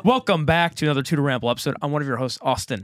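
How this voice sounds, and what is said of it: Raspy, hoarse voice. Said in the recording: “My voice is a little raspy. ... I lost my voice. I don't know if I'm slightly sick or if it's raspy vocal cords from yelling.”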